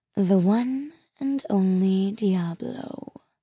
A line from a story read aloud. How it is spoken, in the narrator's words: purred Maleficent, actually looking happy for once